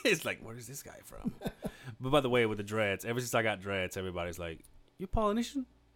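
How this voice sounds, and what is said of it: Mexican accent. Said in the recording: “I am Mexican. If my accent hasn't,”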